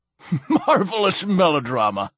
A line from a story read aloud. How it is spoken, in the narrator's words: laughed Silenus